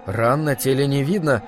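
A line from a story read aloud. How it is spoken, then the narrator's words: Shaken mutter. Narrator (Russian): пробормотал я, потрясенный до глубины души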